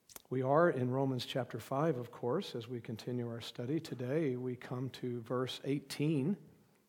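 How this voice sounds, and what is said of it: Strained, partly lost voice. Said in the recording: “an apology and a disclaimer for the state of my voice. I began to lose my voice after last Sunday's sermon ... it's going the right direction. It's better this morning than it has been.”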